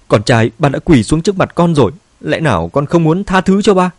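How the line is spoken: Pleading. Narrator (Vietnamese): Ngụy Thành Châu cầu xin

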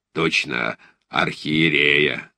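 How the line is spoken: Gentle husky bass. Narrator (Russian): сказал генерал ласковым хрипловатым басом

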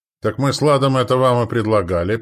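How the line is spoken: Shouting. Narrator (Russian): прокричал Стоян

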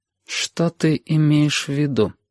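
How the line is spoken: Very cold and quiet. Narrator (Russian): спросила очень холодно и очень тихо

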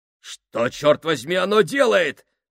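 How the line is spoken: Exclamation. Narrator (Russian): воскликнул Фабрини

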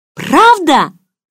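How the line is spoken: Hopeful exclamation. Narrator (Russian): С надеждой воскликнула я

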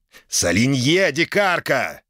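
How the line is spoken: Furious growl. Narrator (Russian): рыкнул взбешенный гость

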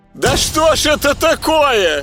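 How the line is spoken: Mother shouting close by. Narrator (Russian): почти над ухом крикнула мамаша

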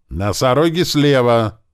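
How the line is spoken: Small one yelling. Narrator (Russian): заорал маленький

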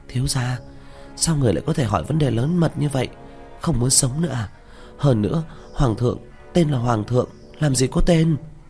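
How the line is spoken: Frightened urgent low voice. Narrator (Vietnamese): Miêu Nhi sợ hãi, thập phần khẩn trương, hạ giọng nói

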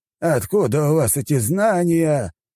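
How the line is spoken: Exclaiming. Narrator (Russian): воскликнул он

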